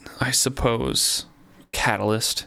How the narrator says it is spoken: he muttered

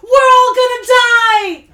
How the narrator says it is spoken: my son yelled excitedly

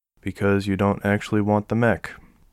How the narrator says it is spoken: she answered calmly

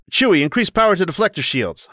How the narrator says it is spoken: Han shouts

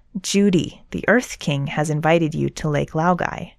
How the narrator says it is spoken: Long Feng says in a soothing, deep voice

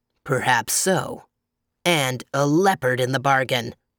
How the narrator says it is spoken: growled the bear

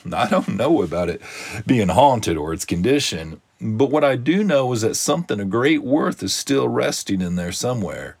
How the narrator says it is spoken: replied the garbage man with a chuckle

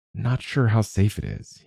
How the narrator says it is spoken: mumbled

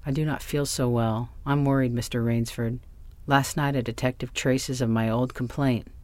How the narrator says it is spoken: sighed the general

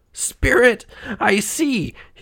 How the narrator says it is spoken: cried

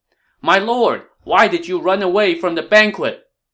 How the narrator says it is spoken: Cai Mao shouted

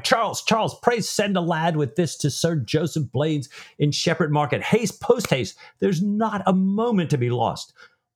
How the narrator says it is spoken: Stephen cried

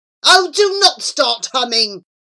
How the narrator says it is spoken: snapped Charlie

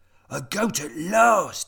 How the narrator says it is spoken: he cried

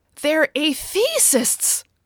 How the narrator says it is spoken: cried Kitty

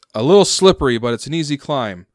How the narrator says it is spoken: he shouts

